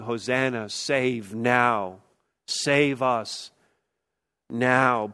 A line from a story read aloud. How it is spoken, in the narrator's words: pleading with God because this world needs this message like it never has before